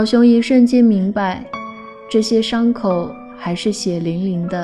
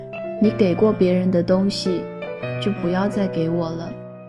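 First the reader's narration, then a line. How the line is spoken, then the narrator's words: Calm, indifferent. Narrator (Chinese): 淡淡的说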